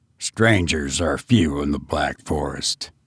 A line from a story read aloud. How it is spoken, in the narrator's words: grunted the host